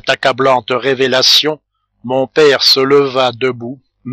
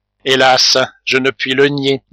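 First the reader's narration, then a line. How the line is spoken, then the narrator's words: Plain. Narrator (French): dit Polidori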